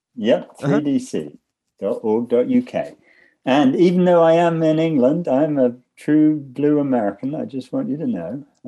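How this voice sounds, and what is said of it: British English accent. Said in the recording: “Originally from the UK. You just still sound funny ... You're accusing me of having an accent.”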